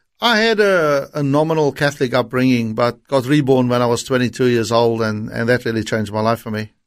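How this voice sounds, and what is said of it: Slight South African accent. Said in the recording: “I recognise a bit of a uh, South African accent there”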